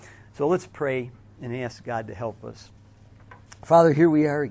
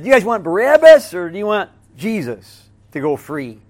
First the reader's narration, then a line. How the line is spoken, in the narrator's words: they all yelled